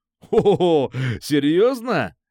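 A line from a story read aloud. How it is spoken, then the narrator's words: Laughing. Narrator (Russian): рассмеялся Никита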